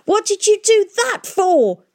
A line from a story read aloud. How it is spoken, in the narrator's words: shouted